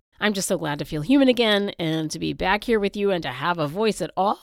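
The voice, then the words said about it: Slightly nasal congested voice. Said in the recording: “I got completely knocked out for a week by the flu ... You can probably still tell that I sound a little nasal”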